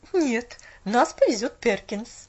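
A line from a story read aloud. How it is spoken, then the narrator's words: Plain. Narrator (Russian): ответила миссис Кэррил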